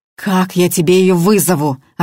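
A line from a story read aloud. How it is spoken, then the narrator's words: Snapping back. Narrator (Russian): огрызнулся Макар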